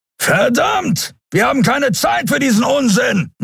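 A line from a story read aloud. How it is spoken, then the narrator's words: Call. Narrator (German): rief Kero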